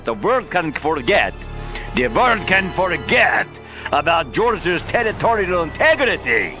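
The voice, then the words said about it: Impression of Russian foreign minister. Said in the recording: “my impersonation of how the Russian foreign minister made his comment today”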